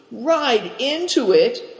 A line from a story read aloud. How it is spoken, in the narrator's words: cried Cao Chang, petrified